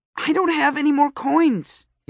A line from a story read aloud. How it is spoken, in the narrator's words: yelled my sister